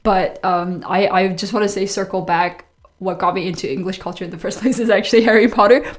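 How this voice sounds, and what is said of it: Strong foreign accent. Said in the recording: “I'm not from around here ... my very very foreign accent.”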